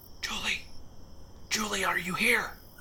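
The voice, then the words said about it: Loud stage whisper. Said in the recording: “whispering so loudly ... your ear-splitting whisper”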